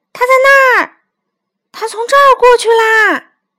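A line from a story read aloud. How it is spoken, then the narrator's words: Children shouting. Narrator (Chinese): 孩子们叫着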